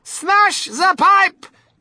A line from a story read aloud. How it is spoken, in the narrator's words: yelled Mrs